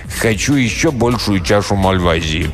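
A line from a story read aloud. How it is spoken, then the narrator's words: Commanding tone. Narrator (Russian): повелительным тоном проговорил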